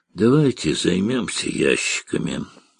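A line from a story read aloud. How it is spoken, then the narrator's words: Tired. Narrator (Russian): устало сказал Карташ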